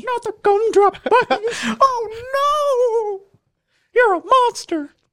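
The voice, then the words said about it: High falsetto character voice. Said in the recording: “That's pretty good. ... That was really good. ... The falsetto voices are pretty easy.”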